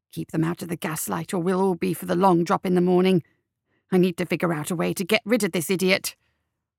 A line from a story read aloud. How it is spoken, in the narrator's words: McMorning hissed in Sebastian's ear